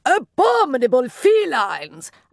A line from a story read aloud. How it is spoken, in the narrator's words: roar